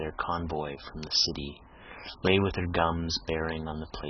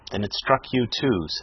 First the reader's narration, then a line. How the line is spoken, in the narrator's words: said the captain